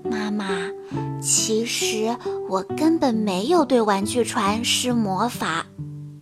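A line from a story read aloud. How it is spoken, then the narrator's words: Whisper in ear. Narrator (Chinese): 菲比贴着妈妈的耳边，小声地说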